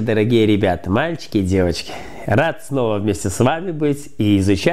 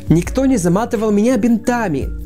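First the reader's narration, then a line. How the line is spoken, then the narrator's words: Joyful announcement. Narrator (Russian): радостно объявил Шмяк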